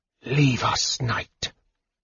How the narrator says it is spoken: Raistlin whispered softly from the shadows

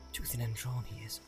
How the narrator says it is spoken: muttered

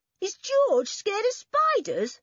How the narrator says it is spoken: cried Toby at once just like a girl

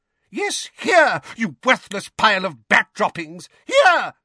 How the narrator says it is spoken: shrieked Mrs

